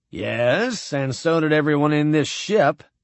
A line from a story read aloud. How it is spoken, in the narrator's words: said Cargill's voice